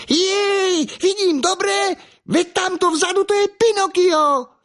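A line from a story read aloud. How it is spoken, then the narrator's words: Harlequin shouting excitedly. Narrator (Slovak): harlekín vzrušene zakričal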